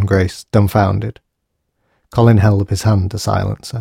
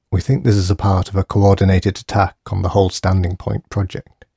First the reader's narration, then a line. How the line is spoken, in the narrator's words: he said gravely